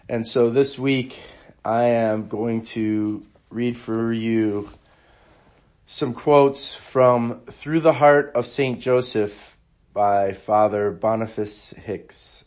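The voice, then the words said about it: Hoarse voice. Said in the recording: “if I sound a little hoarse, I'm a little bit under the weather”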